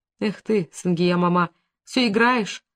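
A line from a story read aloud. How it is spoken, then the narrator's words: Sobbing again. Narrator (Russian): опять всхлипнула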